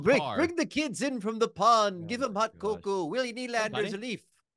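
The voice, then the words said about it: South Park-style Canadian accent impression. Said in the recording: “Your Canadian impression is very South Park... It's like on par with South Park.”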